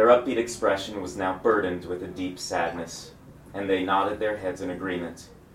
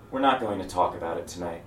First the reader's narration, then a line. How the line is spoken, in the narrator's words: took a deep breath and quietly said